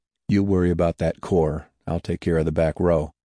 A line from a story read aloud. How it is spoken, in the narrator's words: said quietly